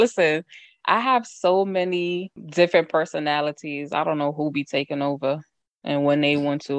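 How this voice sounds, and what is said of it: Usual voice. Nothing is said of it.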